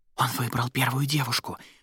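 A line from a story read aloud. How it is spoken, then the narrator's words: Nearby whisper. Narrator (Russian): прошептал кто-то совсем рядом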